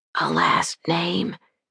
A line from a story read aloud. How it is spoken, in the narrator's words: he whispered